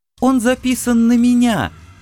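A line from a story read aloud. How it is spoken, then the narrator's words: Joyful exclamation. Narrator (Russian): Радостно розово открыла рот О-90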